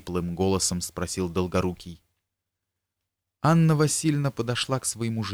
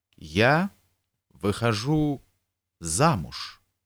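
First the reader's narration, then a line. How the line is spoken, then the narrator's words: Slow, clipped, deliberate. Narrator (Russian): медленно, отчеканивая каждое слово, сказала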